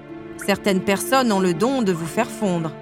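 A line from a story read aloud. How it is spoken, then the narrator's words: Plain. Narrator (French): répondit-il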